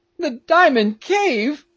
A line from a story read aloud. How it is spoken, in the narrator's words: cried Peterkin